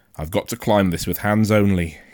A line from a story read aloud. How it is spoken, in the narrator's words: he said